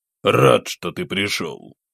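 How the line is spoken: Muffled, like distant thunder. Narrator (Russian): Его голос звучал глухо, как отдаленный гром

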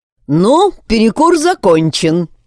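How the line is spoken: Exaggeratedly cheerful. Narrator (Russian): преувеличенно бодро сказал я

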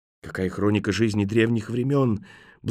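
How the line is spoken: Reverent breathless exclamation. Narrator (Russian): благоговейно выдохнула молодая женщина

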